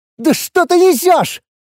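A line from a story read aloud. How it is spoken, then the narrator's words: Hysterical shriek. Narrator (Russian): Истерично взвизгнул Лиур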